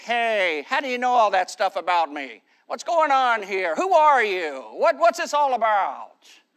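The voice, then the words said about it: Jimmy Stewart impression. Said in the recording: “his best Jimmy Stewart impression, probably even a little better than mine”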